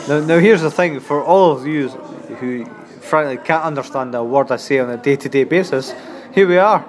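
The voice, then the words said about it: Scottish accent. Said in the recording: “has a beautiful Scottish accent”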